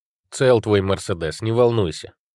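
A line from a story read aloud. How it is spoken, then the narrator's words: Grumbling. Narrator (Russian): проворчал Андрей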